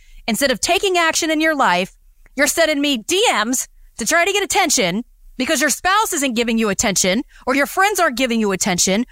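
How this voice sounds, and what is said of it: Frustrated, exasperated tone. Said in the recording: “The frustration that you hear in my voice right now”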